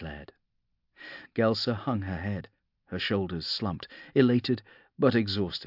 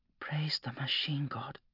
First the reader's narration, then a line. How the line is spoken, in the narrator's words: she whispered, a tear rolling down her cheek